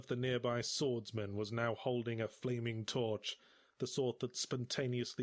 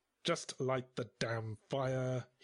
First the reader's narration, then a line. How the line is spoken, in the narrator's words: he growled